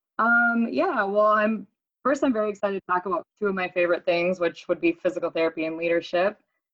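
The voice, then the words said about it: Hoarse voice, recovering from cold. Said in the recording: “forgive my voice. It's still returning after a long, nasty northern Minnesota cold ... hopefully I don't crack”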